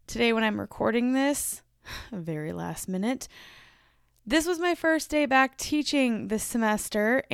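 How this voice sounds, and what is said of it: Strained, hoarse voice. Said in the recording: “My voice is broken today... my voice hurts, like legitimately hurts”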